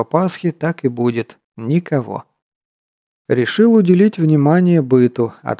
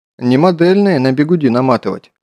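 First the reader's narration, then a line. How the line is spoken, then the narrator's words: Smiling reply. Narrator (Russian): улыбчиво ответил на это его замечание матрос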